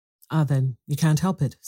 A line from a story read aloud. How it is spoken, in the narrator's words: said Irene